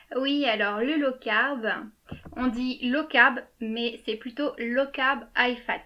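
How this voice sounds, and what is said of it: French-accented English words. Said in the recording (French): “désolé pour mon accent anglais.”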